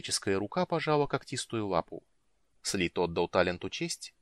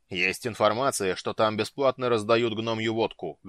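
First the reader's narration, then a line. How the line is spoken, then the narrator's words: Barked shout. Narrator (Russian): гаркнул Слит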